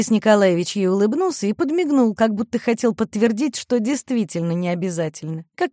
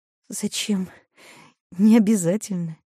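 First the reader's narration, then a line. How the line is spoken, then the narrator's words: Embarrassed, very quiet. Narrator (Russian): Мариша смутилась и проговорила совсем тихо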